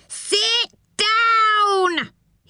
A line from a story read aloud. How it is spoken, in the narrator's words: He roared